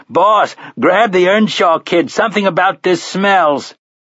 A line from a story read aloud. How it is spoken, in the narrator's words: Finley shouted